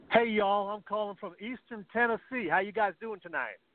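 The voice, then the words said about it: Southern drawl. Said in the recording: “I'm picking up an accent while I'm down here ... I'm saying y'all to everybody”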